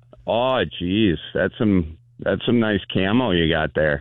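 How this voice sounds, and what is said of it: Camp Wisconsin-accented character voice. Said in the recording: “A gay guy from Wisconsin. ... Do a gay guy from Wisconsin. ... I love the gay guy from Wisconsin.”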